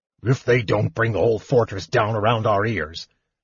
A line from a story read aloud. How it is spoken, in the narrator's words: Sturm muttered